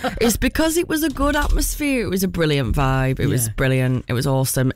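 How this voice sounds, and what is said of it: Hoarse, husky voice. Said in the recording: “Your voice is a bit hoarse. ... You sound so husky. ... I am a little bit husky”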